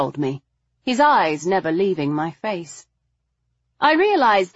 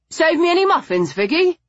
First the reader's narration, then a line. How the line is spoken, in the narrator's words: he asked her cheerfully